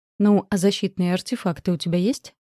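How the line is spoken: Plain question. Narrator (Russian): снова спросила я

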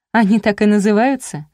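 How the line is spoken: Laughing. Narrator (Russian): засмеялась Марина

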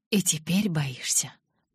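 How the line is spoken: Whisper. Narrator (Russian): прошептал он

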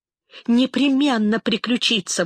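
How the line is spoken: Anguished exclamation. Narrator (Russian): воскликнул Исаак, ломая себе руки в смертельной тоске

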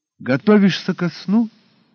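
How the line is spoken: Surprisingly cheerful, upbeat. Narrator (Russian): Голос Стюарта за его спиной звучал на удивление бодро и даже приподнято

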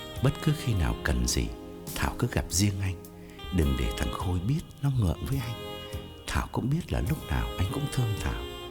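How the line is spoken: Whispering. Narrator (Vietnamese): Khái thì thầm bên tai Thảo

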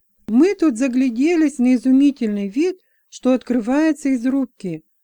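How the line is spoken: Lively exclamation. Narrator (Russian): оживленно воскликнул

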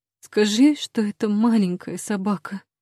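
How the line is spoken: Trembling voice. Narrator (Russian): дрожащим голосом прошу

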